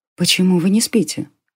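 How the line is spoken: Whisper. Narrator (Russian): прошептала девушка

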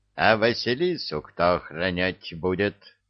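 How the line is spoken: Menacing rooster question. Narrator (Russian): грозно вопросил петух

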